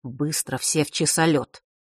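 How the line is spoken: Quiet command. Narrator (Russian): тихо скомандовал он

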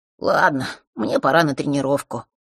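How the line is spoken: Sighing. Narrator (Russian): вздохнув, сказал он

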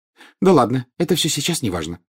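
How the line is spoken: Quick. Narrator (Russian): быстро сказала Гермиона

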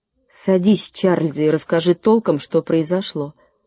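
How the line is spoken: Calm. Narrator (Russian): спокойно сказала мама

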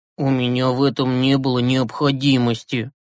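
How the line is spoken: Guilty mumble. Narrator (Russian): виновато пробормотал Юрасик

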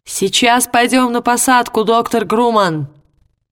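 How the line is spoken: Shouting over the wind. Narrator (Russian): крикнул Ли, перекрывая шум ветра

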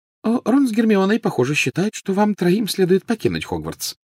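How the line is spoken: Light, casual. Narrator (Russian): начала она легким и непринужденным тоном

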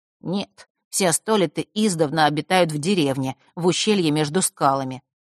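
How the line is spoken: Plain. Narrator (Russian): снова ответил Примару

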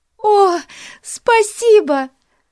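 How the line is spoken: Exclaiming. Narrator (Russian): воскликнула она

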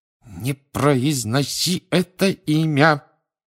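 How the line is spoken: Hissing through teeth. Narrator (Russian): прошипел Рон сквозь зубы

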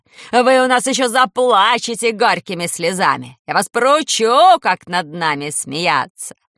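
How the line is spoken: Woman yelling at top voice. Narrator (Russian): вопила тетка во все горло

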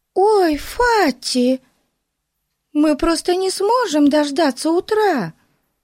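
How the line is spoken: Exclamation. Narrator (Russian): воскликнула Бетси

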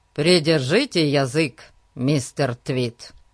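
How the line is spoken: Deep adult bass. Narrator (Russian): Все тем же взрослым басом продолжал Фати

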